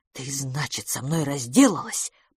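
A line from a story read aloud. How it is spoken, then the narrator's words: Quiet, menacing, near explosion. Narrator (Russian): продолжал Тони тихим голосом, несущим угрозу в любой момент взорваться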